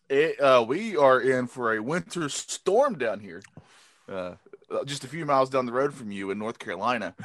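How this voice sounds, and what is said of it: North Carolina accent. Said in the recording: “I'm sure people knew that from our accents all being very similar to each other. But down here in North Carolina”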